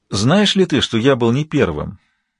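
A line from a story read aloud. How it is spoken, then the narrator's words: Quiet king. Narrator (Russian): негромко сказал король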